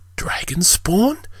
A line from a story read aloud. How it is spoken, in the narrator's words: Traeger asked under his breath